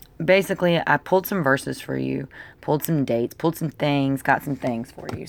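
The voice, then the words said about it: Rough, unwell-sounding voice. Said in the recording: “my voice sounds like shit”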